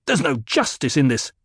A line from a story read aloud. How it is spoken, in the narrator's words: snapped